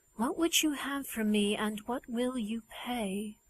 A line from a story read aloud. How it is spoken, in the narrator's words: she asked more quietly again